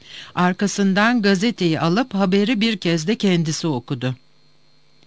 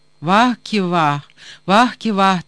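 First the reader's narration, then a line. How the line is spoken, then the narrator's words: Moaning. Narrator (Turkish): diye inledi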